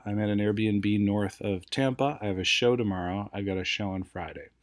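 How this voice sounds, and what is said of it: Wrecked, strained voice. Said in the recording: “I feel like my voice is wrecked”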